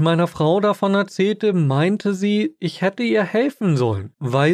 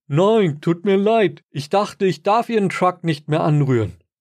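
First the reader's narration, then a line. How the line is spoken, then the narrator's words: Called back. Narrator (German): rief zurück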